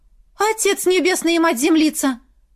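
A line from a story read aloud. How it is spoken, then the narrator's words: Exclaimed in local manner. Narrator (Russian): воскликнула на здешний манер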